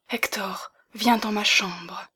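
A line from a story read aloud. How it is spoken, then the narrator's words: Breathy near-whisper. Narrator (French): dit-elle d'une voix qui ressemblait à un souffle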